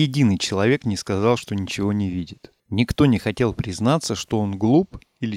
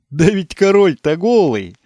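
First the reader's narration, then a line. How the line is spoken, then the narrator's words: Sudden shout, small boy. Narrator (Russian): закричал вдруг какой-то маленький мальчик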